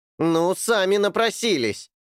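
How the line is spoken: Shouted. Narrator (Russian): крикнул Эрни

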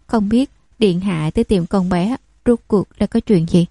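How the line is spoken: Forced smiling reply. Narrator (Vietnamese): Lục thị sầm mặt, rồi mỉm cười đáp

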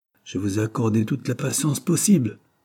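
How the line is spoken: Harsh retort. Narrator (French): répliqua durement M

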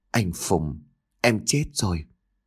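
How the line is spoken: Soft, tearful reply. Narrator (Vietnamese): Nước mắt của cô lăn dài trên gò má, khẽ trả lời

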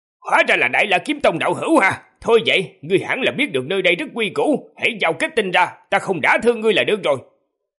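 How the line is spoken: Alarmed loud shout. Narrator (Vietnamese): mặt lập tức biến sắc, miệng hét lớn

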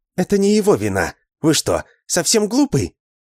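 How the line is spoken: Heated exclamation. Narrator (Russian): Запальчиво воскликнула Алиса

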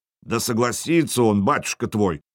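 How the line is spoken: Deep bass voice. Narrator (Russian): пробасил Харальд

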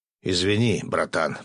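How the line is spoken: Muttering under breath. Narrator (Russian): пробурчал под нос Бурый

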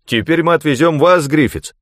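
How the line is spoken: Shouted. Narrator (Russian): Стюарт Финчли обернулся и крикнул

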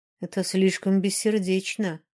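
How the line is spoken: Grim reply. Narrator (Russian): мрачно ответил Динар

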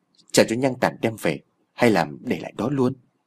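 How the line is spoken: Muttering. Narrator (Vietnamese): Siêu lầm bầm bảo Cường

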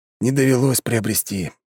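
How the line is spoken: Sigh. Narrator (Russian): вздохнул он

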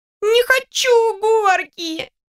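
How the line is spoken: Child's theatrical sobbing. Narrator (Russian): Тут же заявил ребенок, картинно всхлипывая

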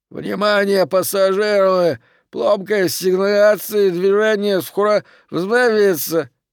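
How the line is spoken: Hoarse loudspeaker voice. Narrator (Russian): из динамика внутренней связи хриплый голос произнес

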